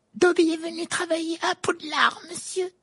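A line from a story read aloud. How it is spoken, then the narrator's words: Elf squeaking excitedly. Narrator (French): couina l'elfe d'un air tout excité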